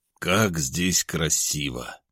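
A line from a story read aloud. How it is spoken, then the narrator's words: Breathless exclamation. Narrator (Russian): выдохнул, не удержавшись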